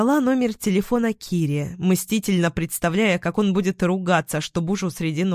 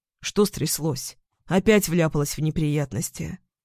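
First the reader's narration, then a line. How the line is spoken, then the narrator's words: Sleep-hoarse question. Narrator (Russian): Хриплым от сна голосом спросил Киря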